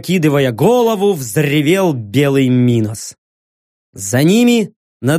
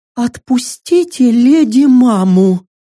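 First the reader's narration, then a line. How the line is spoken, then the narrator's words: Breathless child. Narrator (Russian): выдохнуло дитя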